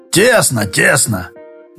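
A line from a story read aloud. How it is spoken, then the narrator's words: Grumpy grumbling. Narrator (Russian): брюзгливо проворчал Краюхин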